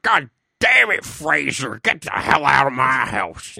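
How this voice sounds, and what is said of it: Gruff worked-up older man's voice. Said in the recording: “he sounds like a little British boy. Yep, and his dad's like ... doing a good impression ... only when he gets worked up”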